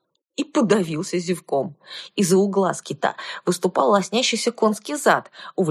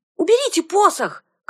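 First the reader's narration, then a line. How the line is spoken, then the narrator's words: Shouted. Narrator (Russian): крикнула я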